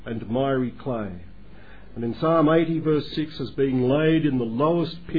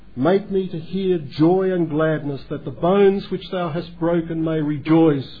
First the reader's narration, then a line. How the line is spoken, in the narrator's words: David cries out in that psalm